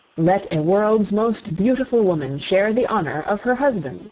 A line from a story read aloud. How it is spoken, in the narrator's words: he said